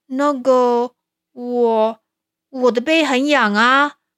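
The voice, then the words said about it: Quiet, sheepish voice. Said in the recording (Chinese): “讲话也变小声了”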